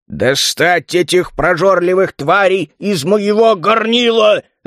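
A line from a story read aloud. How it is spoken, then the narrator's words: Irritated growl. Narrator (Russian): раздраженно зарычал Грамнер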